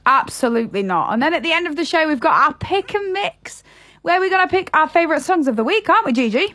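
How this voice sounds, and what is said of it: Yorkshire accent. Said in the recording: “always up the north with Yorkshire. It's where I was born and bred ... I hope I never lose my accent”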